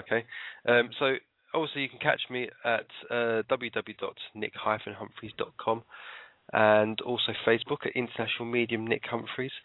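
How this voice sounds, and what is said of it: Tired-sounding voice. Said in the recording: “I'm absolutely knackered... you can hear it in my voice. I'm actually really tired.”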